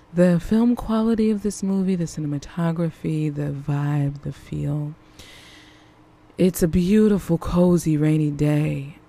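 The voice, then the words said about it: Smooth jazz radio DJ voice. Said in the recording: “turn on my smooth jazz radio voice”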